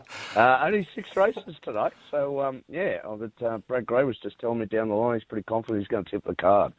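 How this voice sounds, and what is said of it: Croaky, strained voice. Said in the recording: “my voice is a bit... went out last night ... the voice is a bit croaky this morning”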